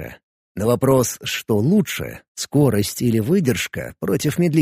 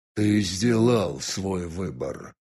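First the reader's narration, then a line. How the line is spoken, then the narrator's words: Quiet synthetic genderless voice. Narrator (Russian): тихо прозвучал синтетический бесполый голос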